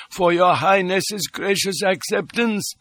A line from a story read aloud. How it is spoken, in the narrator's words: quavered von Saldern